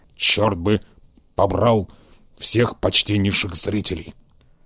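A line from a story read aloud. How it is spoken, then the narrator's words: Grumbling. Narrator (Russian): проворчал он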